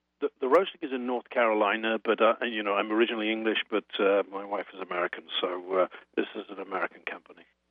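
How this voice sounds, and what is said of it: British accent. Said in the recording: “It sounds like you have a British accent.”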